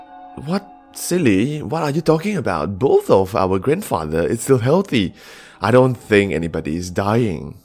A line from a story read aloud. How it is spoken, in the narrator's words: he laughed at me saying that